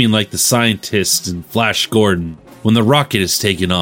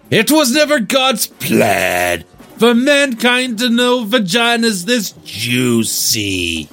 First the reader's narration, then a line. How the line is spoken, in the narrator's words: the sausage screamed